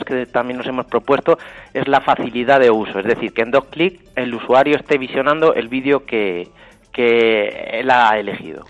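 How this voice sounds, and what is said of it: Castilian Spanish accent. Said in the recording (Spanish): “tiene ese acento castellano”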